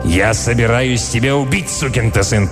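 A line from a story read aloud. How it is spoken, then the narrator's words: Growled. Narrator (Russian): прорычал Милтон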